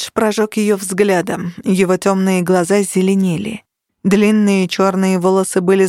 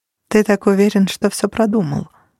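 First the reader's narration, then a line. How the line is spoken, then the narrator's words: Even, flat voice. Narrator (Russian): ровным голосом произнесла Кира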